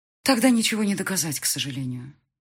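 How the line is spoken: Sighing. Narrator (Russian): вздохнула женщина

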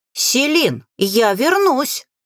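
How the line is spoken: Shouting while dragged. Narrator (Russian): прокричал маг, пока его тащили ближе к лодке

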